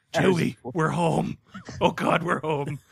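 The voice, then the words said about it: Raspy imitation of an actor's voice. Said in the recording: “my shitty Harrison Ford impression ... Too many years of cigarettes now. I sound like Harrison Ford after a dick in the throat ... you sound like Harrison Ford today”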